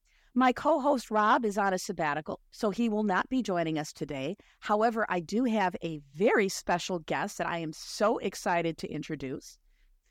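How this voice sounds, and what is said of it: Slightly hoarse voice. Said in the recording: “I am getting over a bad case of bronchitis, so I apologize. I'm a little bit hoarse.”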